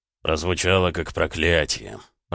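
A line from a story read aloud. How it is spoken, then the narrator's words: Muttering. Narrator (Russian): пробормотал Эд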